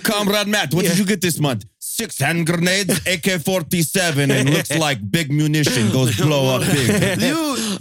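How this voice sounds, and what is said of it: Mock Russian accent. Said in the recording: “a Russian accent”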